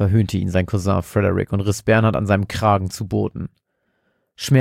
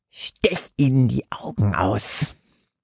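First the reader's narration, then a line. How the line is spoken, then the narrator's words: Hissed. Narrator (German): fauchte es aus Bernhards Hinterkopf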